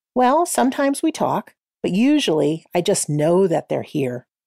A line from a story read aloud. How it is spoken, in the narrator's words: Martha said